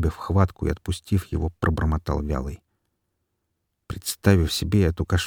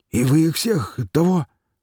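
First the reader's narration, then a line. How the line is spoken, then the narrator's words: Wheezing but calm. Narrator (Russian): хрипя, но уже спокойным голосом спросил Шмыг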